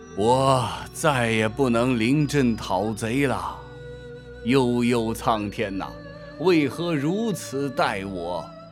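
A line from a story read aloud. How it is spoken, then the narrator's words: Long sigh. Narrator (Chinese): 诸葛亮强支并体，长叹着说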